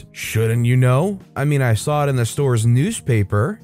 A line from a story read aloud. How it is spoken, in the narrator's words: She then angrily says